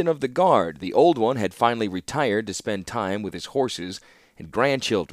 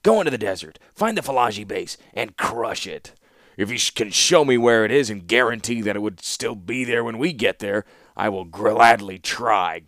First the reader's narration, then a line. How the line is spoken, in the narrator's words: grumbled the warlord